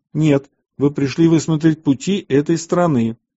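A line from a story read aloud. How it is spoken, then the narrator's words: Angry voice. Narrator (Russian): Иосиф сердитым голосом сказал им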